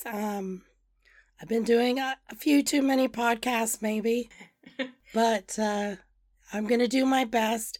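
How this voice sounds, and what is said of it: Hoarse, strained voice. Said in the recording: “I am under the weather ... I have a bit of laryngitis ... please pardon my voice”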